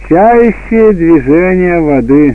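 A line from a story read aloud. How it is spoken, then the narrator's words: Loud, mocking young men. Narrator (Russian): Молодые люди насмешливо окинули их взглядом и громко сказали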